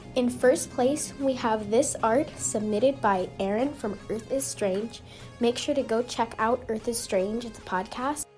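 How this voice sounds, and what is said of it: Slightly sick-sounding voice. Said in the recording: “I am a little bit sick, so if I sound weird, that is why.”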